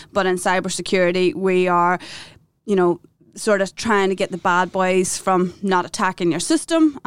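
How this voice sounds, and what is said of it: Noticeable non-Australian foreign accent. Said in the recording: “I do detect a bit of an accent ... I don't think this accent is going anywhere at this stage ... There's no denying it when I open my mouth.”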